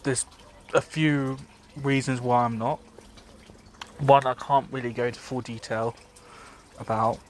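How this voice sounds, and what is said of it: Congested, subdued voice. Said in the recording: “as you can probably tell from my voice, I'm not exactly ecstatic ... I'm kind of bu- bugged up at the moment in the nose ... I've got hay fever”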